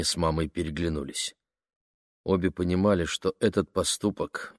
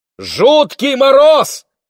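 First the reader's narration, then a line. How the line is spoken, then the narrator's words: Mother shouting over engine. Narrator (Russian): прокричала мама, перекрывая шум мотора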